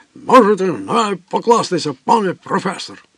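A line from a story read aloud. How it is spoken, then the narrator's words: Growl. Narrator (Ukrainian): Він тільки прогарчав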